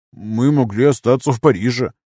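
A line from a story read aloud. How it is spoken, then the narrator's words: Defensive. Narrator (Russian): попытался защититься муж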